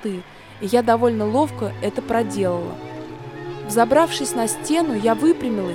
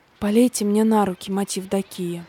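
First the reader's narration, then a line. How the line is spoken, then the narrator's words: Hoarse, nauseous. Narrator (Russian): просипела я сквозь очередной приступ тошноты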